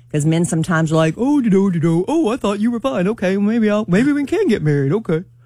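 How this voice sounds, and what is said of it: Impression of a man's voice. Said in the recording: “That's my man impersonation.”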